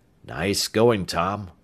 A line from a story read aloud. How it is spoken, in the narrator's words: Ames murmured